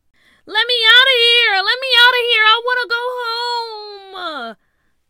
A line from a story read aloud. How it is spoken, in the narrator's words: Tia screamed